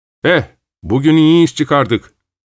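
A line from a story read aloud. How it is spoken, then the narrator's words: Shouting. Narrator (Turkish): diye bağırdım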